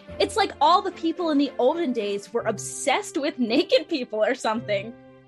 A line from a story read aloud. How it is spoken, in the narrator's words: Hina said with a little giggle